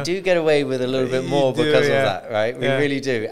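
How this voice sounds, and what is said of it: British accent. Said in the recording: “you have a British accent. So they'll be like, oh, he's got that lovely British accent.”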